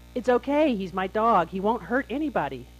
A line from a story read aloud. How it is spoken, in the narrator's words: shouting